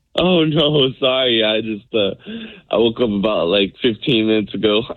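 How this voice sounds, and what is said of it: Raspy, low just-woke-up voice. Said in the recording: “raspy, sexy, almost radio DJ voice”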